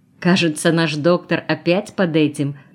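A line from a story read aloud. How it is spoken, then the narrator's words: Laughing. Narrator (Russian): засмеялась Женя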